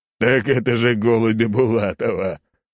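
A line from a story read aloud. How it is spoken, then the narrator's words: Old man laughing. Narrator (Russian): снова рассмеялся старик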